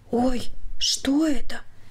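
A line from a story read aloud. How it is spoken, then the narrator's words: Quiet questioning. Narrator (Russian): Тихо вопросительно произнесла Катя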